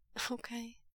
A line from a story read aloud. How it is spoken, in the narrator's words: Wei Ying gets out, his voice as unsteady as his knees